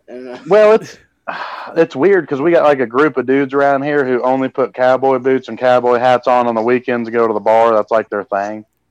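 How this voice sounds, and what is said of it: Distinctive regional accent. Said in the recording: “I'm really feeling this accent. This is about to go. This is about to be my number 3 accent. ... his is a great accent.”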